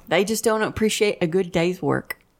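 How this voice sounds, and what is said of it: Put-on Southern accent. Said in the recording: “What kind of accent is that? That doesn't sound like a British accent. ... It's not. I didn't want to mess up the British accent. I don't think I've ever heard her do the Southern.”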